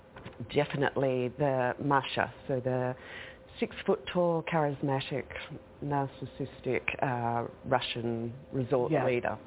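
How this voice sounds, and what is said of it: Australian accent. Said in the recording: “We can't help but notice your Australian accent.”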